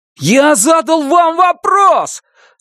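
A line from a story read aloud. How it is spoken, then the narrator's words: Shouting. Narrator (Russian): закричал Брезач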